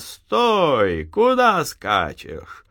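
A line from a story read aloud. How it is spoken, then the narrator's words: Shouting. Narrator (Russian): кричит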